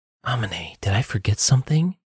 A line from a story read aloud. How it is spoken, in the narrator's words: Saladia whispered